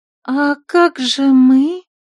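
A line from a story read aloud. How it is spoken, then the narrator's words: Languid little voice. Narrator (Russian): томным голоском спросила одна из леди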